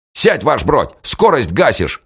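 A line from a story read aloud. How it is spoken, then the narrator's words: Bark. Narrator (Russian): рявкнул Грайворона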